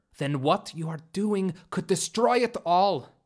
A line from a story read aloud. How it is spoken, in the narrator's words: Bellry exclaimed